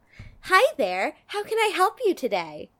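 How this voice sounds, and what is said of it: Cheery customer service voice. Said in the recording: “your customer service voice”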